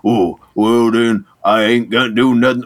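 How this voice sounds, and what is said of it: Put-on Southern US accent. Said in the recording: “Why is he some southern miner? ... a southern stereotype ... a southern accent”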